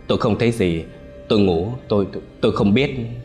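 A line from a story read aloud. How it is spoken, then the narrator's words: Frightened stammer. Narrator (Vietnamese): Người bạn tù cùng phòng chỉ lắp bắp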